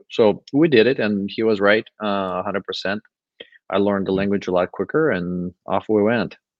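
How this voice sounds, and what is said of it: Non-native English accent. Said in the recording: “my accent ... it's your second language”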